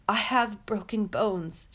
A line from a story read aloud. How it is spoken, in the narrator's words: she rasped